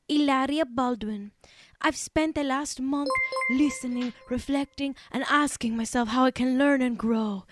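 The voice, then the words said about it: Hilaria Baldwin's faux Spanish accent. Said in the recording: “I have to do this in the Hilaria accent ... I'm not doing an impression of a Spanish woman. I'm doing an impression of Hilaria Baldwin, a not Spanish woman who is doing an impression of a Spanish woman”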